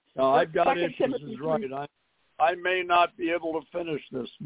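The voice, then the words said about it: Hoarse, strained voice. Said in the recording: “My voice is, last night I lost it completely”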